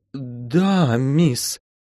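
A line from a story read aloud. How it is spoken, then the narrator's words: Timid babble. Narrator (Russian): пролепетала мама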